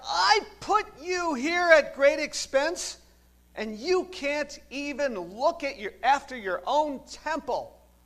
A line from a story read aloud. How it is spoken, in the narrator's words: he shouted out